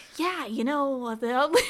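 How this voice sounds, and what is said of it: Imitates another person's voice. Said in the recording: “your Ethan Hawke impression. Pretty good, honestly.”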